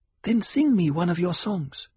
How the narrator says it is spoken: Cheney pleaded

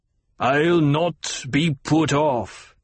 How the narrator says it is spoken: the Colonel Bashar snarled

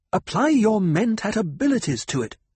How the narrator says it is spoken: she snapped

